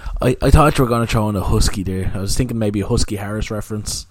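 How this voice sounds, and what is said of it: Slightly sick-sounding voice. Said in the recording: “I'm a little bit sick this week, so if my voice is a little bit different, that's why.”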